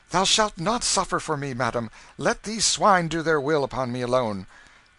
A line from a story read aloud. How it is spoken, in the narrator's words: Canty, exclaiming